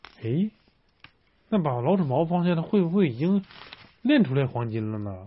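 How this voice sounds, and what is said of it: Usual voice. Nothing is said of it.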